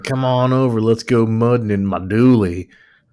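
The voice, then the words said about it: Put-on rural accent. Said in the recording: “I didn't know you had an accent like that.”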